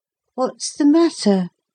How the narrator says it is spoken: said Philip sleepily

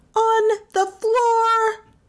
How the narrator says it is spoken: Melissa shouted

